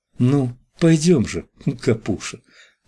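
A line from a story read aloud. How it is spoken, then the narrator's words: Soft laugh, pleading singsong whisper. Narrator (Russian): Она рассмеялась совсем тихо, очень добро, и шепнула на ухо с мольбой нараспев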